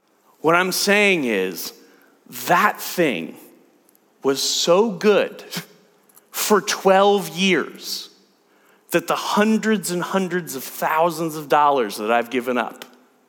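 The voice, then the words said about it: Speaks with a noticeable accent. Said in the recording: “I've got a bad accent”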